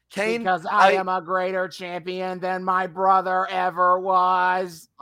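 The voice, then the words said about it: Robotic voice-box character voice. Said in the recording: “old vo- voice box Kane ... just taking a voice box and putting up to his throat and then doing a shitty robot”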